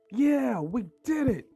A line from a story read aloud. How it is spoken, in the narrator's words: Toby yelled